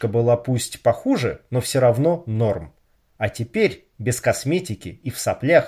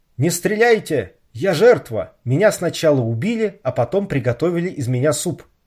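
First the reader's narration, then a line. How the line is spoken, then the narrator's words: Shouting from under bed. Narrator (Russian): закричал Даня из-под кровати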